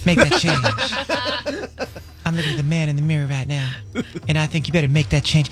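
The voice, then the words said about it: Imitates another person's voice. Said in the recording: “Do I do like a mean Michael Jackson? ... I just don't know if it's your best impression. ... He is impeccably correct right now.”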